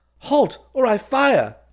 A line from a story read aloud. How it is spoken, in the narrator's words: He cried